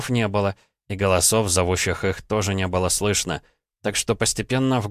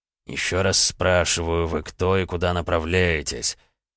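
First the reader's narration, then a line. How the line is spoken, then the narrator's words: Quiet questioning. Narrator (Russian): Один из пленивших денщиков людей задавал вопросы негромким голосом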